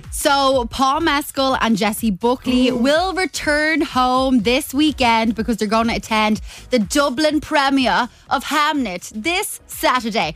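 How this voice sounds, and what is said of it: Put-on accent. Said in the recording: “Do you like my accent? ... Very good. Yeah. Excellent. Wow. Really fitting in.”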